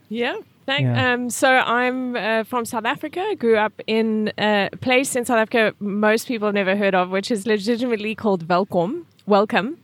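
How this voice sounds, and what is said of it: South African accent. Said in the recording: “I'm sure people detect an accent.”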